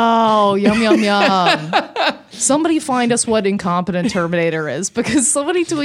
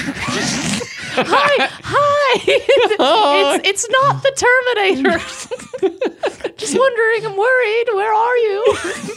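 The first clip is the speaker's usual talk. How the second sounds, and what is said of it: Imitates a mother's voice. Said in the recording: “tries to do the accents of her mother ... I'm trying to fake it.”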